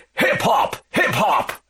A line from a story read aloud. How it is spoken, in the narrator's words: a voice shouting